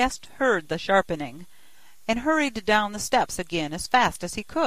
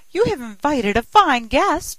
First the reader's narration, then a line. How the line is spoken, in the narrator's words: screaming, cried